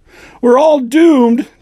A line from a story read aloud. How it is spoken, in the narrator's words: Jesse shrieked